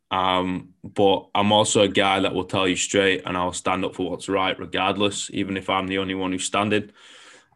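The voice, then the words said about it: Foreign, non-New Zealand accent. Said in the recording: “I'm foreign, right? I'm not Kiwi, yeah. So my accent is a little bit funny.”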